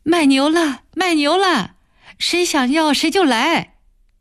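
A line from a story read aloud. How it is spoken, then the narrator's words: Shouting. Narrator (Chinese): 暖暖喊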